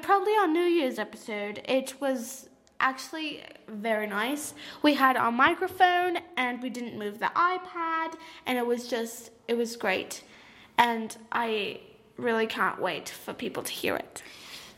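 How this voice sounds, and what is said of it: Put-on British accent. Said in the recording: “now I'm British. I'm gonna do a British accent.”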